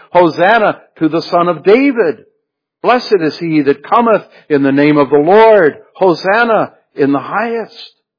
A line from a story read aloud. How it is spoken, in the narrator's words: many from this very multitude had shouted